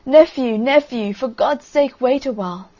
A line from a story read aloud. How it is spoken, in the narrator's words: And the king cried